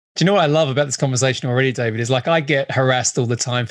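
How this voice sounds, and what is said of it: Hybrid mostly Australian accent. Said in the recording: “my weird accent, which is hybrid Australian. It sounds very Australian like now, right? And then English and then sort of US a bit.”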